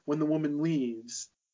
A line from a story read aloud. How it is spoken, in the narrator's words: Nina cries softly